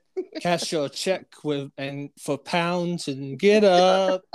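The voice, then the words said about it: Sings a rap line in his accent. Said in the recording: “Do it with your accent.”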